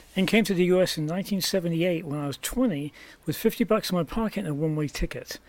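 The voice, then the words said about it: English accent. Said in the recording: “I came from England originally, as my accent may well give away”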